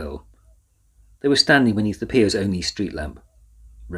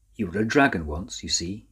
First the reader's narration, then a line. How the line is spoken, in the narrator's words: he said quietly